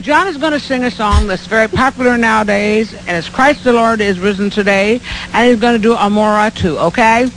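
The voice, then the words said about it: Speaks with a strong accent. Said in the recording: “if you couldn't understand her accent”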